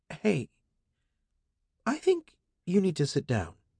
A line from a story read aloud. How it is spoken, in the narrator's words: said in a softer voice